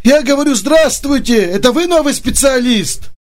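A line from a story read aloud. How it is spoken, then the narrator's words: Cheerful man's question. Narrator (Russian): спросил мужчина бодрым голосом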